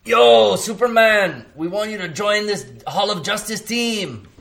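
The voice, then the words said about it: Imitated Mexican-accented voice. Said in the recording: “Why are you talking like that? ... my Cheech Marin impression. ... I've acquired a perfect Cheech Marin impression. ... He has acquired the perfect Mexicano accent.”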